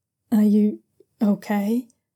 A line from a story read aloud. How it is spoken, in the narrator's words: Jiang Yang asks hesitantly after a few moments